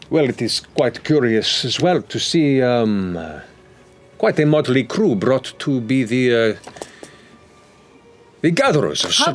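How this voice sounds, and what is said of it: In-character voice with an accent. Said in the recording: “Just because of his accent? ... She said that in character.”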